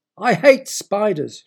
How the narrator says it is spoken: she screamed

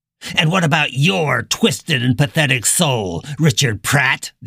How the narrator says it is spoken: the old man spat

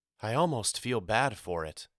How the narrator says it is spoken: Mama whispered

